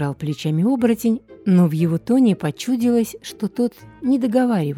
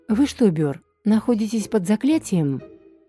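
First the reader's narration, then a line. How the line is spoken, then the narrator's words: Soft. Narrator (Russian): мягко произнес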